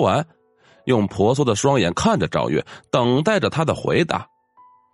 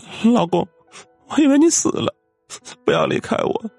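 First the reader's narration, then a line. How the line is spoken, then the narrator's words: Weeping. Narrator (Chinese): 陈蕊哭泣着说道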